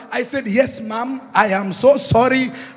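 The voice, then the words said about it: Kenyan accent. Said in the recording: “I got my Kenyan accent back.”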